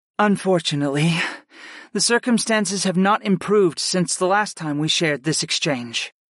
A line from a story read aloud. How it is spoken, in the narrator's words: my aunt sighed